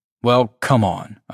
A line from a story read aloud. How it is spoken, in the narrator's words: I snapped at him